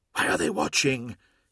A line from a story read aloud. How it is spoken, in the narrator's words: hissed Hathor Mart